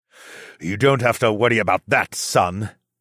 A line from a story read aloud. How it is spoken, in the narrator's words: Zoclan growled